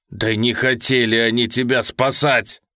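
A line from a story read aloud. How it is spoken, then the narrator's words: Roaring. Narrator (Russian): взревел Федор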